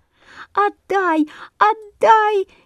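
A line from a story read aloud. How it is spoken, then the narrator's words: Frantic squeaking sparrows. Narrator (Russian): неистово пищали воробьи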